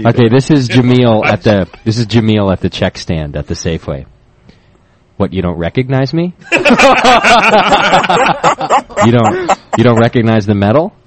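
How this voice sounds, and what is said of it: Impersonation of a store clerk. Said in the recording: “My own little Jameel impersonation.”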